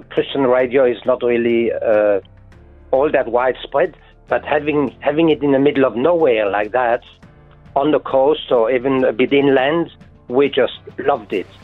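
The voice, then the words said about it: French accent with mixed influences. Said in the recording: “what's your accent? ... I come from France, near the German-Swiss borders, hence my Mongol accent”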